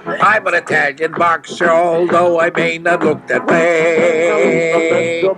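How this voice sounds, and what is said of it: Italian accent. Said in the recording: “Boy, he just has developed an Italian accent.”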